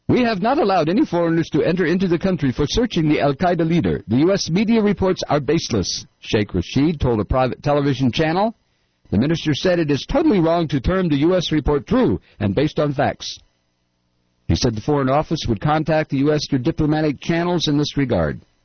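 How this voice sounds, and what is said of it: Mock Pakistani accent. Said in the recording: “Am I mocking a Pakistani accent? Yes. In fact, I am.”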